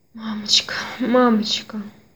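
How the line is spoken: Breathless whisper. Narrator (Russian): Он тяжело дышал и еще продолжал шептать

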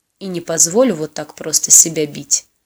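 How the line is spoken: Said with a smirk. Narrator (Russian): хмыкнув, произнес он

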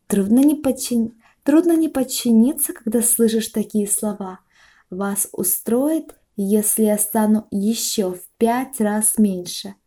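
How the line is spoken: Plain. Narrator (Russian): спросила она

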